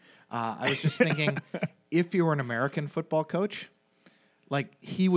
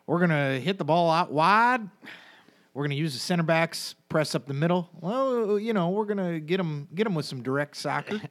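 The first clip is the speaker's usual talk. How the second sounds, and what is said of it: Put-on Alabama twang. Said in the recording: “He'd have the full-on, like, Alabama twang.”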